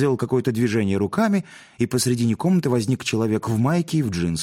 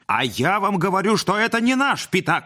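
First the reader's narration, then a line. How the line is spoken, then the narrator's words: Yelled. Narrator (Russian): заорал Модест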